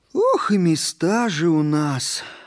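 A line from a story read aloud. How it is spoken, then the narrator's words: Sighing. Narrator (Russian): вздохнул второй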